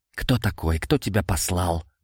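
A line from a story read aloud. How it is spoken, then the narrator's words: Hissed into ear. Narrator (Russian): прошипел я незнакомцу в ухо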